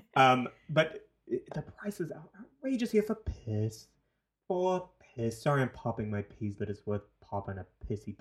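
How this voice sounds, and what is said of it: New Zealand accent. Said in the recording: “I'm from New Zealand ... this accent doesn't make sense. It has no home.”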